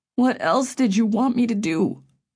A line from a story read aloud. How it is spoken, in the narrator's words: Griffin whined